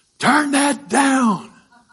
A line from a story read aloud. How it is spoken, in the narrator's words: shouted out as loud as he could